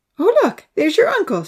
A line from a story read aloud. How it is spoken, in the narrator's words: she laughed